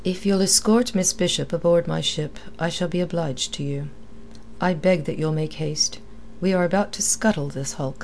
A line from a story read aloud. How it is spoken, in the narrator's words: It was in a level voice that the captain added